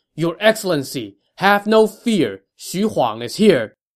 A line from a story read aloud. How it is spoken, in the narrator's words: someone shouted